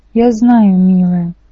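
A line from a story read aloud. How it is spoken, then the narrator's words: Sad. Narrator (Russian): печально сказал Гермес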